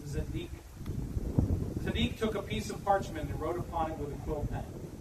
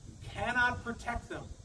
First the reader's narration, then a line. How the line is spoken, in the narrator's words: Zadik said